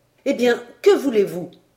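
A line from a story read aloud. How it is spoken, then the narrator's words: Exclaimed. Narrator (French): s'écria le géographe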